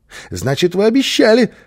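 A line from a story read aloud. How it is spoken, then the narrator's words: Joyful child's voice. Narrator (Russian): радостно подхватил малыш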